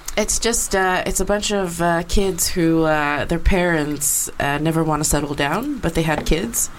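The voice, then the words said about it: International American accent, faint Swedish. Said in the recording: “a bit of a sort of Swedish accent. I can pick up on something ... You've got an international accent ... I have an international school accent ... end up sounding very American, but non-regionally specific”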